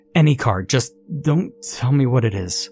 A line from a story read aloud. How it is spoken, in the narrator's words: I stammered